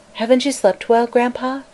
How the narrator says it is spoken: she asked anxiously

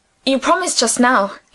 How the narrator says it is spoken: he said

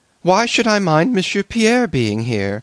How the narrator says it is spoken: exclaimed the little princess suddenly

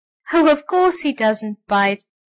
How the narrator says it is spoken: laughed Miss Mugg

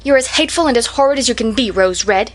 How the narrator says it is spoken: she exclaimed angrily

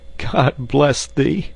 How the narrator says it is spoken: sobbed Raff

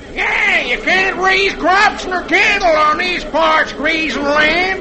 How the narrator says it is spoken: another hollers

